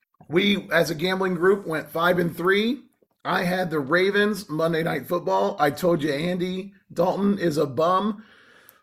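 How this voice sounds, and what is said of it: Raspy, strained voice. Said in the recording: “pretty much shot... it has done me in on my voice... my raspy voice”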